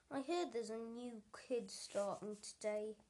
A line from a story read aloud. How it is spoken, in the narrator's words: grunted